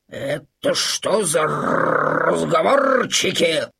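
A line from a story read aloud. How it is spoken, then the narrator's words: Grumbling. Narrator (Russian): проворчал Максимилиан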